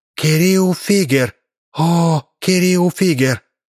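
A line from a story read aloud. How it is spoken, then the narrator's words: Whisper. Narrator (Russian): прошептала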